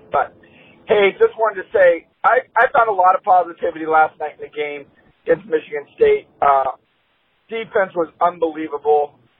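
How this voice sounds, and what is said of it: Hoarse, strained voice. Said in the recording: “my voice is a little gone from screaming at the game”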